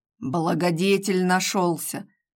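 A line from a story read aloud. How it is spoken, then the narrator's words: Through gritted teeth, suppressed anger. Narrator (Russian): сквозь зубы проговорил Сергей, еле сдерживая откуда-то взявшуюся злость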